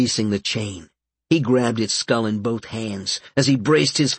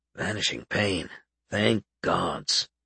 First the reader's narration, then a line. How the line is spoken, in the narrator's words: Albert muttered